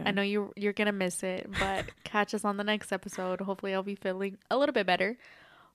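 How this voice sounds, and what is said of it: Stuffy, congested voice. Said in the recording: “excuse my voice. I'm very stuffy today. Allergies is kicking my ass.”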